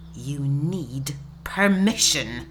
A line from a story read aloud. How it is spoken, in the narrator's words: hisses